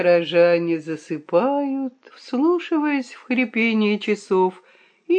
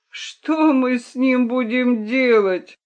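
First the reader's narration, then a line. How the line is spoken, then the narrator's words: Moaning, secretly joyful. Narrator (Russian): простонал петух, хотя его сердце билось от радости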